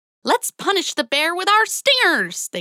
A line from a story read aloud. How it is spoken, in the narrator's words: they cried